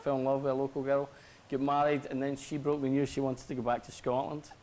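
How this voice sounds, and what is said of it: Strong Glaswegian Scottish accent. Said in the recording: “I'm sensing an accent... I'm from Scotland... I'm from Glasgow, Govan... I've still got a very strong accent”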